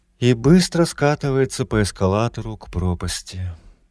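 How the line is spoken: Sympathetic sigh. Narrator (Russian): с долей сочувствия вздохнула Рада

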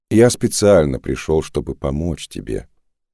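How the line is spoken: Calm. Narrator (Russian): спокойно произнес он

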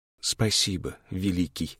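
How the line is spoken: Quiet, blending with wind. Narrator (Russian): произнесла она тихо, и звуки ее голоса смешались с далеким шумом ветра

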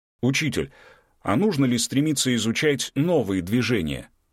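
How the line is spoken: Plain. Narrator (Russian): спросил Константин

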